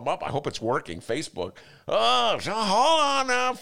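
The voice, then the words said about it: Flustered, panicky imitated voice. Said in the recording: “Was that your impression of me freaking out trying to get this show set up?”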